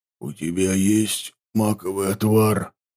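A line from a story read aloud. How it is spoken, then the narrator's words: Barely audible whisper. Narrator (Russian): чуть слышно прошептал он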